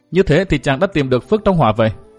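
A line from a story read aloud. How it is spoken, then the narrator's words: Smiling. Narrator (Vietnamese): Đinh Phượng mỉm cười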